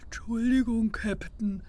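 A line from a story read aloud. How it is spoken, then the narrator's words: Mumbling. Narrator (German): nuschelte Topsy Pete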